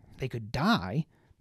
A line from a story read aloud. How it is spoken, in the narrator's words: Baz snapped back